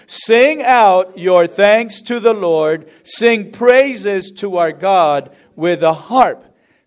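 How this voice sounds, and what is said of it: Strong, loud reading aloud. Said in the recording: “in a strong voice”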